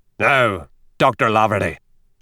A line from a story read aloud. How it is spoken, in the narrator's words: growled O'Reilly